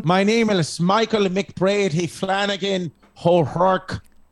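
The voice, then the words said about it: Put-on Irish accent. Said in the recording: “Is that a good Irish accent? ... It's perfect. ... An Irish accent.”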